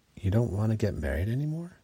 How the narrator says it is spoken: Chris asked quietly, sounding devastated

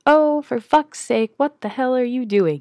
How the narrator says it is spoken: Nate yells at the TV in annoyance

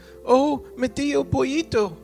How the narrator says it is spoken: cried the wind

